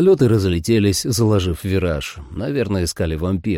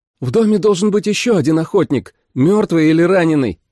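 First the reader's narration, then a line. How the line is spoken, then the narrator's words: Shout. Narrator (Russian): крикнула Джули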